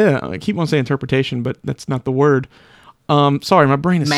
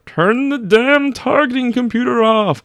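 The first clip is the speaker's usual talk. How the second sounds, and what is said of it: Imitates another person's voice, badly. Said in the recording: “That's a really, really bad Alec Guinness.”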